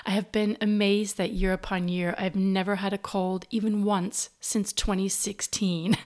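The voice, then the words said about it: Congested, stuffy-nosed voice. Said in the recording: “I sound a bit congested,”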